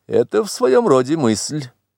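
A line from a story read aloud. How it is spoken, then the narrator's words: Serious remark, unsmiling. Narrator (Russian): заметил Версилов, но совсем не смеясь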